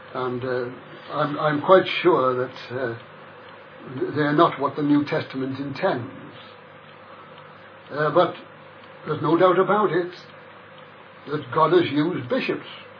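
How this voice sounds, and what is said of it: Liverpool Scouse accent. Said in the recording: “the Liverpool accent, they have no doubt detected it in me ... the Scouse language coming out”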